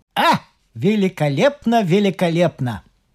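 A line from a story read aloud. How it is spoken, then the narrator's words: Loud declaration. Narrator (Russian): своей дрожащей рукой кружку и сделав один глоток, он громко заявил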